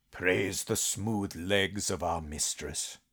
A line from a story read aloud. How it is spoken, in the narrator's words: he heard Farlager mutter